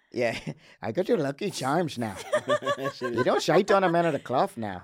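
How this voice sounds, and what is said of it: Put-on Irish accent. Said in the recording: “Can you do an Irish accent? Irish accent.”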